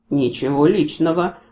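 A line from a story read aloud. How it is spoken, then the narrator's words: Sympathetic grumble. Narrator (Russian): пробурчал с неожиданным сочувствием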